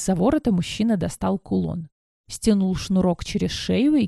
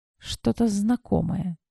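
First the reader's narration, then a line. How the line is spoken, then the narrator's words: Quiet. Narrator (Russian): тихо произнесла я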